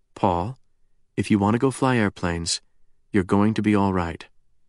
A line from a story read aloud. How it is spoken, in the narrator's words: the former Enola Gay haggard added quietly